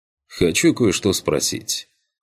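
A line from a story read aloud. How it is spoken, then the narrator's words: Quiet. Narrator (Russian): негромко произнес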